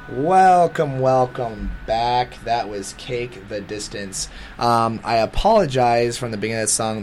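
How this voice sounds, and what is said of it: Crackly, rough sick-sounding voice. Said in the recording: “my voice is crackly and gross because that bug is going around”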